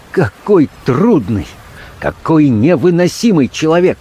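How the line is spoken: Exclamation. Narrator (Russian): воскликнул он

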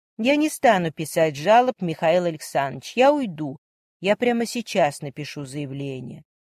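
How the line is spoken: Even, steady voice. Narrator (Russian): ровным голосом произнесла Варя

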